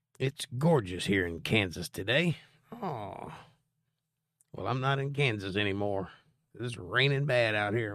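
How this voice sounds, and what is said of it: Slightly hoarse voice. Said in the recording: “I'm a little hoarse today. It's all the rain.”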